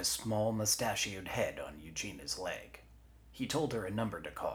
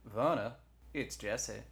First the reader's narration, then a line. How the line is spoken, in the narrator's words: Eugenia's knee said